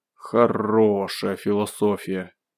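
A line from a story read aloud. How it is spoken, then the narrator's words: Disapproving drawl. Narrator (Russian): неодобрительно протянул Белый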